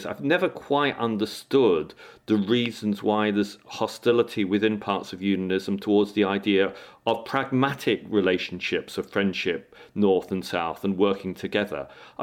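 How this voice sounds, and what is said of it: English accent. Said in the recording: “you gather from my accent, I'm English.”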